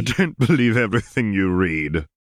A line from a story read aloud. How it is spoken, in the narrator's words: interrupted Tom with a laugh